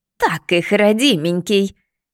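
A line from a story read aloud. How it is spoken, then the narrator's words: Jubilant roar. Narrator (Russian): ликующе взревела избушка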